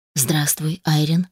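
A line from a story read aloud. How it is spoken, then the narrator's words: Quiet male voice. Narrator (Russian): тихо произнес мужчина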